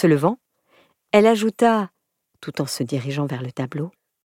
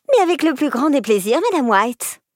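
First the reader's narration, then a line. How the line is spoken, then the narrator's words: Honeyed voice. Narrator (French): répondit-elle d'une voix mielleuse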